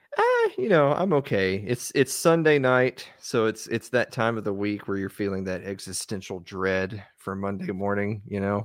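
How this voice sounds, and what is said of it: Southern US accent. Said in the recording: “he's from the South, so it sounds cooler ... should I go all in on the Southern accent? ... you can go as exaggerated as you want”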